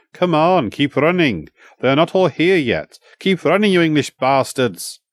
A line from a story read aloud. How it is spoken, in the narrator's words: he shouted back to us